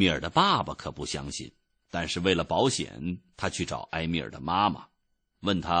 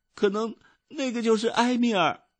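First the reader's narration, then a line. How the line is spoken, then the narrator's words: Crying child. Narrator (Chinese): 小伊达一边哭一边说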